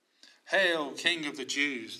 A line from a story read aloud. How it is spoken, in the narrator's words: they said